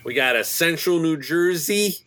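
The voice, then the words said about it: Put-on New Jersey accent. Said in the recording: “Because that's my New Jersey accent.”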